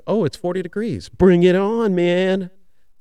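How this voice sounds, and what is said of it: Playful voice of a kale vegetable. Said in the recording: “That's kind of kale. That's my best kale impersonation.”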